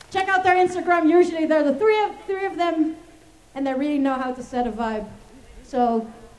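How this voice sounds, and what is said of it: Out of breath. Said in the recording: “I am really out of breath!”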